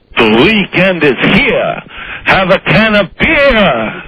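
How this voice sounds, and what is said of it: Dracula vampire accent. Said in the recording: “do your Friday statement with a Dracula accent ... It's his Dracula accent.”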